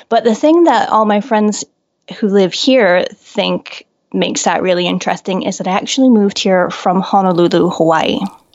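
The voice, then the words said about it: American accent. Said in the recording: “you can probably tell from my accent that I'm American”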